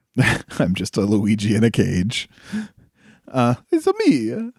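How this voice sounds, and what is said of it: Imitated Luigi character voice. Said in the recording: “I can do that voice a little bit”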